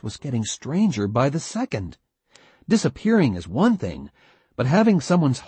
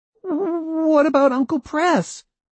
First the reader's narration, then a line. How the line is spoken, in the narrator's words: asked Mark nervously